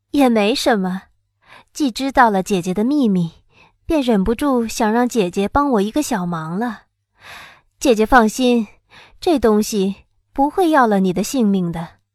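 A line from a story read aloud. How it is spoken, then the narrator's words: Laughing. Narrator (Chinese): 我笑道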